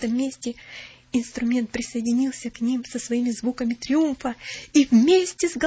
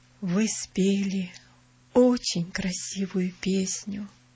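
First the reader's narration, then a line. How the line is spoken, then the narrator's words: Gentle, affectionate. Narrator (Russian): сказал он ласково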